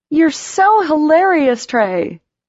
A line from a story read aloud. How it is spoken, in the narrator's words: she said loudly